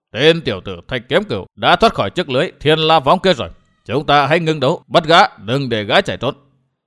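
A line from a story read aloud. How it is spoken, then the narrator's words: Shout. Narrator (Vietnamese): Giác Hải đại sư quát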